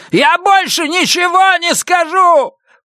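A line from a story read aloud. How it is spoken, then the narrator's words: Shouting. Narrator (Russian): прокричал примус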